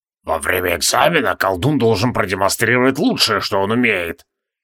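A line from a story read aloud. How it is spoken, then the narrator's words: Hissing whisper. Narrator (Russian): свистящим шепотом объяснял Тивилдорм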